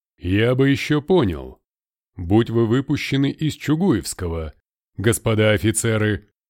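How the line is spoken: Colonel's deep bass. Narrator (Russian): басил полковник

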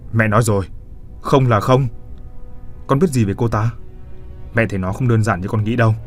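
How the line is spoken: Angry woman. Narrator (Vietnamese): Bà tức giận không nói nên lời

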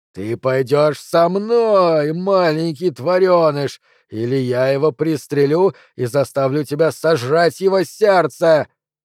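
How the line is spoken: Roaring. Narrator (Russian): проревел Андреми

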